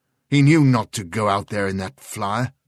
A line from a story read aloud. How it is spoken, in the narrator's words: snapped Sheridan